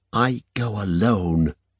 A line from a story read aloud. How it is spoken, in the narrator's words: she whispered